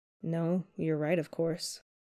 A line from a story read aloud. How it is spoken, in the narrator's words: Peter murmurs